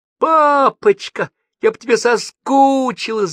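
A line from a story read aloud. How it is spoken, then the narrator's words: Loud shout. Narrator (Russian): закричала она на всю поляну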